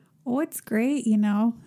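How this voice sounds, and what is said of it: Put-on Fargo-style accent. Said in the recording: “What are you, Sarah Palin? What is that? ... Let's try to do the Fargo accent. ... That exact accent doesn't even exist here.”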